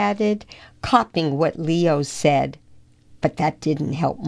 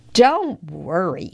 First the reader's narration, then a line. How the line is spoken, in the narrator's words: said Lester